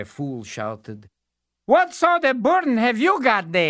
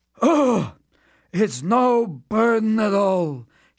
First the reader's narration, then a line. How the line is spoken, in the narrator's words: he replied wearily